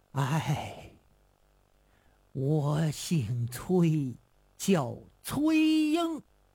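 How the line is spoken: Long sigh. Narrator (Chinese): 这人 长叹一声

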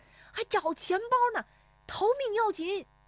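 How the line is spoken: Shouting while running. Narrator (Chinese): 石丽华边奔边喊

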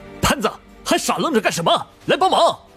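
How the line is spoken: Shouting. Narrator (Chinese): 火小邪 喊着

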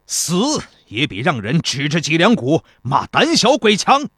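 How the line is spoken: General shouting. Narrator (Chinese): 其中一个将军喊道

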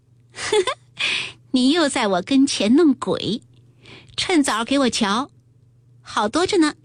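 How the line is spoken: Laughing. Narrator (Chinese): 笑道

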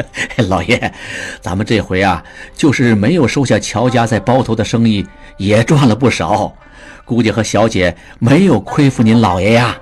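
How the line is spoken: Smiling. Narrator (Chinese): 侯管家笑道

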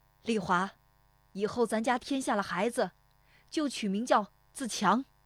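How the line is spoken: Shouted. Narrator (Chinese): 父亲对着堂屋喊了一声

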